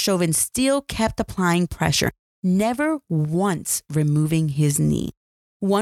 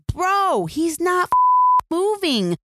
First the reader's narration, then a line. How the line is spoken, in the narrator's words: One man yells